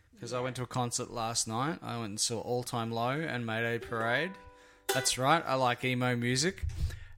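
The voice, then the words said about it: Hoarse, rough, raspy voice. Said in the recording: “My voice is a little hoarse today, like a little rough ... my voice is a little bit raspy”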